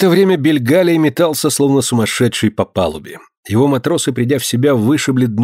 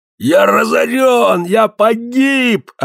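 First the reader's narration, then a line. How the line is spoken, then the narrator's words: Yelling. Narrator (Russian): орал он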